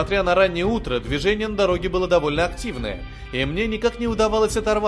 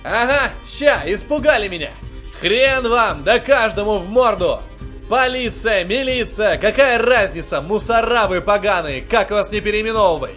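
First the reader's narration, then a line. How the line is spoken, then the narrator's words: Uncontrolled emotional yelling. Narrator (Russian): Орал я, не в силах сдержать эмоции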